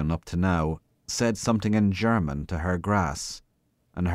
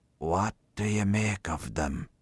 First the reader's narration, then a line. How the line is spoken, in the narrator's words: He whispered confidentially